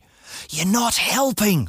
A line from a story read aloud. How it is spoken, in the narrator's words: I whispered